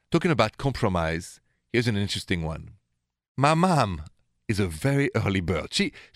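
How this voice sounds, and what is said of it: French accent. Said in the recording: “The accent is French. I was born and raised in Paris”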